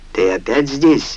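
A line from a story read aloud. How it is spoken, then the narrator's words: Irritated question. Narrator (Russian): раздраженно спросил Халид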